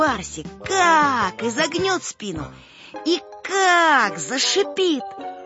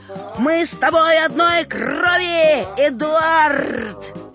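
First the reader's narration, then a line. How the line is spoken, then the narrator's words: Full-force bellow. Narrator (Russian): я как гаркну изо всех сил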